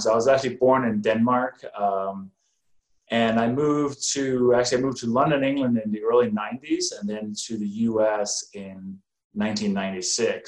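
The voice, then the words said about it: Slight foreign accent. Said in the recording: “as people can probably hear, I got a little bit of an accent”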